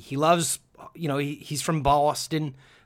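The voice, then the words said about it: Bad put-on Boston accent. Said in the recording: “That was a terrible accent”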